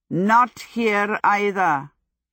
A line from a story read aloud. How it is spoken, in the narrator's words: he said